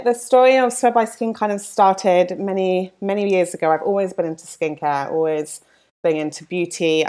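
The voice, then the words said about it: London English accent. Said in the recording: “I'm from London, as you can probably tell from my accent”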